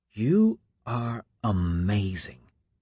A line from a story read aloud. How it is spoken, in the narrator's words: Juliet whispered